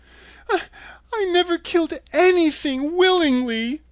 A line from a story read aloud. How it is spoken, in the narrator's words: sobbed